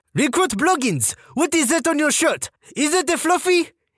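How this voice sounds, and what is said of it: Female French-Canadian accent. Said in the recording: “Imagine a female French-Canadian sergeant with this accent.”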